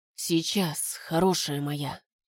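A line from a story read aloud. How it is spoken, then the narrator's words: Intimate whisper. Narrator (Russian): шептал он ей в губы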